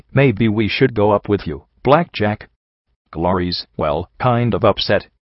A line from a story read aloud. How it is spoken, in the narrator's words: P21 said evenly